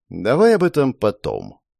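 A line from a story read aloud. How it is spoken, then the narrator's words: Calm. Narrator (Russian): произнес генерал, совершенно спокойно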